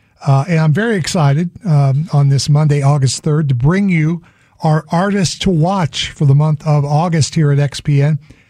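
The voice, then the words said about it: Hoarse voice. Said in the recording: “yes, I know, I'm hoarse today. Sorry about that.”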